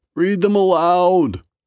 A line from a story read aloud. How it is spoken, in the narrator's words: shouted